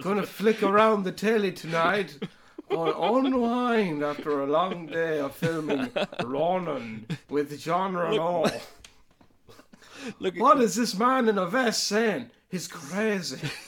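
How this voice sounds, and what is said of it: Imitates another person's voice. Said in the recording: “I'll do De Niro's running commentary in his head ... I'll be De Niro tuning in.”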